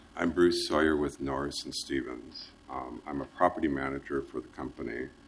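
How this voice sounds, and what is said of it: Congested voice from a cold. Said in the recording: “Sorry, I have a cold.”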